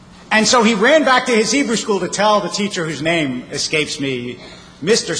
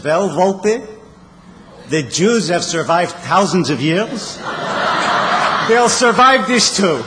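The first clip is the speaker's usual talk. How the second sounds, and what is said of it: Imitated Yiddish accent. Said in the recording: “the teacher said in his Yiddish accent”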